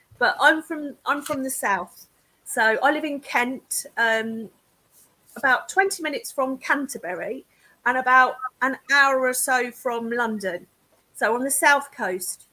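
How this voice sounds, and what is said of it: Southern English accent with twang. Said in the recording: “I've got a southern accent ... this is a southern accent, and not a northern accent ... It's got a real twang”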